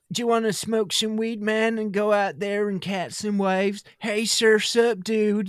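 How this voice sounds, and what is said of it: Californian surfer dude accent. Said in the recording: “California ... if that's the California men”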